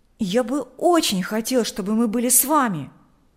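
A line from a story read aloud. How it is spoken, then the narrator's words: Exclaiming. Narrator (Russian): воскликнул Миша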